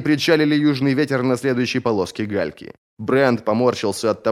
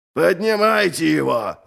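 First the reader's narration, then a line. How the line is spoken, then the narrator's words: Roaring. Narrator (Russian): взревел Ральф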